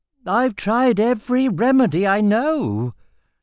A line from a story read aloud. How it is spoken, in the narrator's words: the physician whined